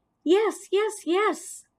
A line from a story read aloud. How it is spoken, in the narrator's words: I squeaked